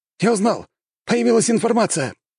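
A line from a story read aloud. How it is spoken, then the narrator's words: Exclamation. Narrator (Russian): воскликнул один из операторов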